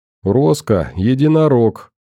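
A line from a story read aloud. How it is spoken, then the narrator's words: Giggle. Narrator (Russian): хихикнул Зелон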